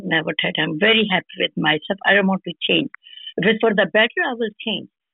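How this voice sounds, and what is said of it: Indian English accent. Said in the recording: “anybody from India, Delhi ... Never try to change accent.”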